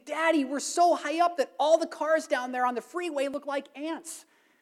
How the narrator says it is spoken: the little girl exclaimed

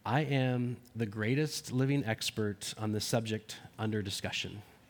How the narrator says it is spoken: The normally modest professor replied quietly

